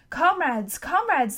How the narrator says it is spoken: shouted

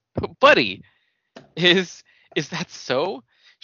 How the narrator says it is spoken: asked lowly and nervously

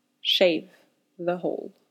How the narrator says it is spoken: Louis mumbled

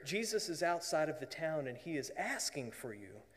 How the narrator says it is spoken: quietly whispers in her ear

